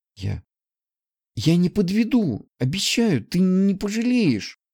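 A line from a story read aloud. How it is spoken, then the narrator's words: Joyful exclamation. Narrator (Russian): Обрадованно воскликнула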